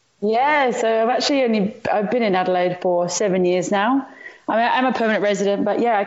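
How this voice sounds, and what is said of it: Slight English accent. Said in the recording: “I detect a bit of an English accent there.”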